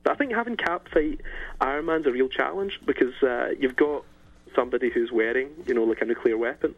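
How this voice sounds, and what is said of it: Pleasant distinctive accent. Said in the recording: “I love his accent. ... it's great. It's always so good to listen to.”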